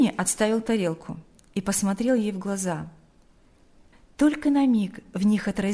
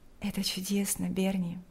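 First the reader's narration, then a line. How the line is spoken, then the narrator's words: Quiet. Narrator (Russian): тихо сказала Лика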